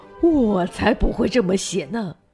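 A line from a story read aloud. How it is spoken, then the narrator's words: Lamenting lion. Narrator (Chinese): 狮子哀叹说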